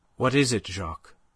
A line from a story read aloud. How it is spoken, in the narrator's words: Her voice was steady now that the need for self-control seemed thrust upon her